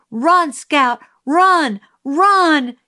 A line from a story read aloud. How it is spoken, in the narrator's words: Jim screamed